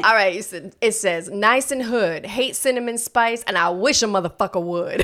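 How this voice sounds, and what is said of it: New York accent. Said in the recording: “Let ... use her New York accent.”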